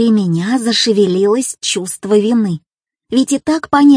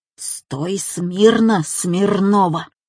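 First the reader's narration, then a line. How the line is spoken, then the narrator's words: Hissing. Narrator (Russian): зашипел физрук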